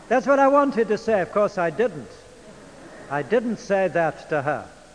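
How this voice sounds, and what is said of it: English accent. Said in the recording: “I do like your English accent ... I speak the Queen's English”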